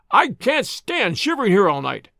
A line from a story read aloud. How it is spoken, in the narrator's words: cried the voice